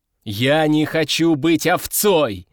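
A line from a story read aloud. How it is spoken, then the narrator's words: Shouted with emphatic pounding. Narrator (Russian): закричал я, ударяя кулаком по столу на каждом слове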